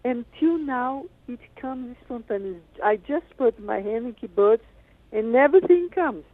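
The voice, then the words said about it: French-accented English. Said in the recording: “how come you sound like you have a French accent? ... You do not have a Brazilian accent. ... she's got a French accent.”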